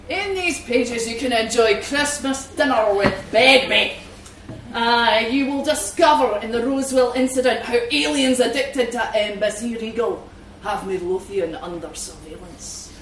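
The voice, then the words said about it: Put-on Scottish accent. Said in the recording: “I hope there are no Scots people in the room, because I'm going to read you the description in my best accent”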